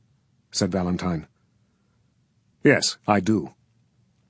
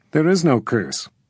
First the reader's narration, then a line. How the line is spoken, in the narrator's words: Valentine said calmly